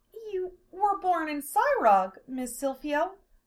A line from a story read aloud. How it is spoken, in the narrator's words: Amelia asked in a slightly wavering voice